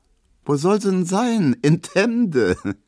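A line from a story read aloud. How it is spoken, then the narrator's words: Laughing. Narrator (German): meint Emma und lacht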